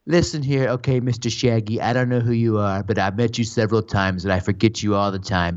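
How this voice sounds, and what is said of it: Imitates another person's voice. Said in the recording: “I do a pretty good impression ... Donald Trump”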